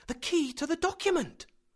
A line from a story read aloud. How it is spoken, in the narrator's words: I cried